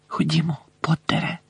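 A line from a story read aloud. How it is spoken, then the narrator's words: Whispered. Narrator (Ukrainian): прошепотіла вона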